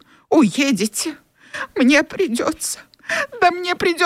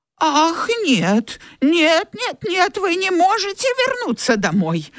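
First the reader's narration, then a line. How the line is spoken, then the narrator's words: Exclamation. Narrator (Russian): воскликнула тетушка Питтипэт и вдруг расплакалась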